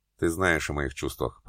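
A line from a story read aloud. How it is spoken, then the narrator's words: Muttering. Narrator (Russian): пробормотал Максим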